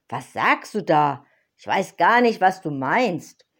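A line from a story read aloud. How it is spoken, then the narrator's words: Startled cry. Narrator (German): rief erschrocken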